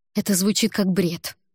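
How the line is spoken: Irritated. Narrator (Russian): раздраженно произнесла я

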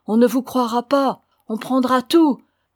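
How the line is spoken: Woman shouting. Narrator (French): criait l'autre femme

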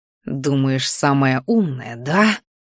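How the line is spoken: Furious hiss. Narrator (Russian): прошипел он в ярости

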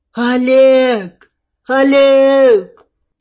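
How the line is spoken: Shouting from nearby trees. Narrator (Russian): Танюшка кричала совсем недалеко, за деревьями

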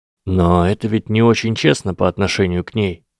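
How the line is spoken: Gentle. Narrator (Russian): мягко заметил Гарри

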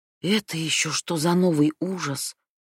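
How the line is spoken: Whisper. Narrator (Russian): прошептала Хадия

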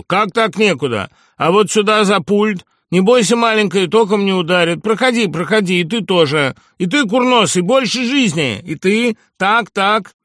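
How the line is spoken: Deep booming voice. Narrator (Russian): густой голос Перси Диксона прогудел

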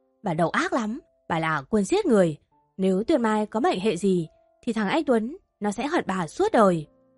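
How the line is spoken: Angry shout. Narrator (Vietnamese): Ông Anh Tú ... bà Thu Hoài mà hét lên giận dữ

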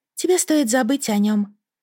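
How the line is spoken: Sad. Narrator (Russian): грустно произнесла Эйсфори

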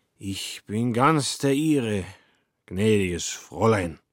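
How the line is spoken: Drunken slurring. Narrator (German): lallte er

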